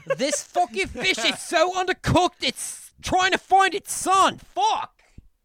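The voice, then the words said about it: Put-on Australian accent. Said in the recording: “Are speaking in an Australian accent.”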